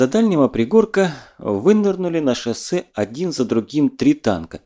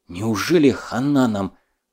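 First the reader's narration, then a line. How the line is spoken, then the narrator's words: Breathless exhale. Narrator (Russian): выдохнул Неклюдов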